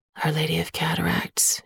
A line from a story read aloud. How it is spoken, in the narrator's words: he murmurs